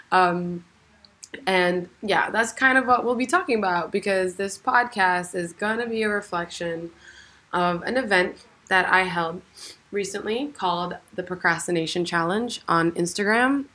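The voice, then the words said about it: Voice sounds unusual, altered. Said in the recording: “as you can hear, my voice is kind of weird. You might not have recognized me.”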